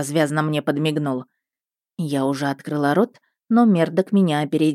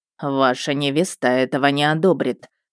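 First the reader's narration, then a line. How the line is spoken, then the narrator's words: Icy cold tone. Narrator (Russian): ледяным тоном произнес он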